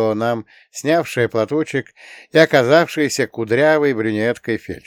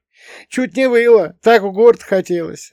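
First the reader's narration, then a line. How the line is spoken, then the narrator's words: Laughing. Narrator (Russian): рассмеялась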